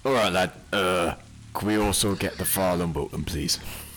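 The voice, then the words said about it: Put-on northern English accent. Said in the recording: “doing an accent ... he felt like he needed to be northern ... So he just put a northern accent.”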